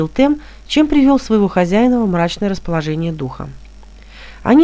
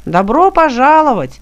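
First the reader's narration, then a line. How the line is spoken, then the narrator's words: Distant shout. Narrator (Russian): крикнул он издалека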